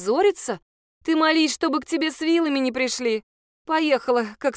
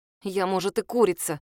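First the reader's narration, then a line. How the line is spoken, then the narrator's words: Through gritted teeth. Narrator (Russian): сквозь зубы проговорила Лиза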